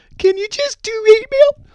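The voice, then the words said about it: Man doing a falsetto girl voice. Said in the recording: “that's a girl voice. Let me try a better girl voice ... that's not going to work ... I'm not good at imitating girl voices”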